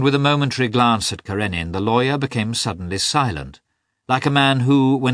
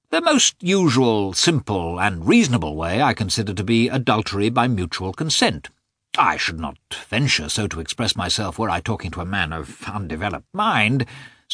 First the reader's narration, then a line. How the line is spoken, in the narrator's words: said